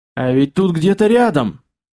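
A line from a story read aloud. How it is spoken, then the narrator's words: Shouted over loud rustling. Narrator (Russian): прокричал сквозь громкий шелестящий фон Юрка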